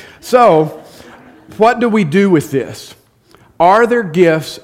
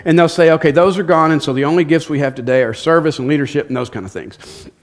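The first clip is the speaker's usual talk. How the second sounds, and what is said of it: Speaking very fast. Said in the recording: “I'm talking really fast.”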